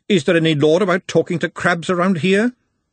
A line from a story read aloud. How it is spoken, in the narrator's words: she snapped